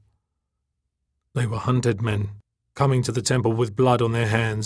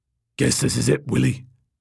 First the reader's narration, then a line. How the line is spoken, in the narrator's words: he said, his voice a low, guttural rumble